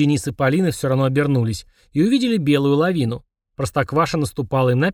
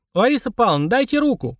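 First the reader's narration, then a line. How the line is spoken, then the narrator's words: Shout. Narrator (Russian): крикнула Полина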